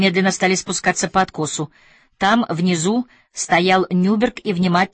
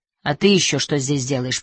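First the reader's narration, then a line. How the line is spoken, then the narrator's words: Grumbling. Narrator (Russian): проворчал Нюберг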